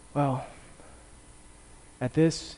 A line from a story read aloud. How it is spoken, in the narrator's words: breathed his last words